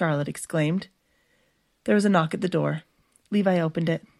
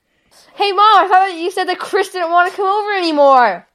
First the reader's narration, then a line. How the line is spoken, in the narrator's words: Levi shouted